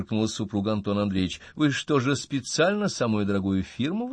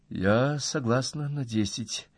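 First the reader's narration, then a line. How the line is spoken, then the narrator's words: Quiet. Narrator (Russian): тихо сказала Ира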